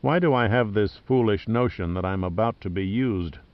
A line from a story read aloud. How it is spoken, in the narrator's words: Pitt muttered